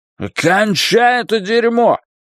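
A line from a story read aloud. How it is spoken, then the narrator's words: Shouting. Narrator (Russian): крикнул Ллойд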